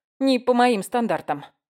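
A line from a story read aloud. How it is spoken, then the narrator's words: Grumbling. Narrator (Russian): буркнула я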